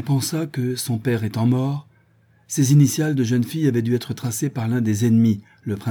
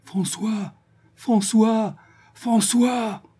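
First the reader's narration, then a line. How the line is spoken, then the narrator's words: Heartrending calling. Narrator (French): Elle appelait d'une voix déchirante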